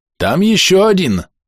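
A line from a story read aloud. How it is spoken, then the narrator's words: Shouting. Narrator (Russian): крикнул Сэм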